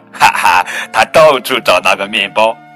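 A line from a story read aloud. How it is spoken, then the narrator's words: Hearty laughter. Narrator (Chinese): 角马这时候哈哈大笑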